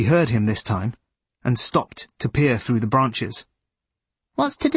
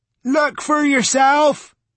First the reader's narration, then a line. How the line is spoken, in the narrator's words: shouted Judd